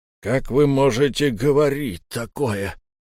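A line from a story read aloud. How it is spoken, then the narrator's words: Hissing. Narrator (Russian): прошипел Выби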